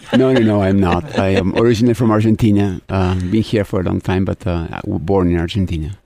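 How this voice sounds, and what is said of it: Slight foreign accent. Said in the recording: “You have a little bit of an accent. Not from Iowa.”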